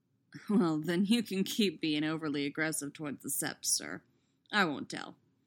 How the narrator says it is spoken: he says wryly

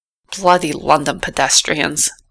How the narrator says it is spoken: the driver muttered to himself

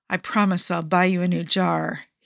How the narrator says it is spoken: he growls

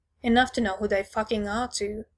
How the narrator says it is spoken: he says

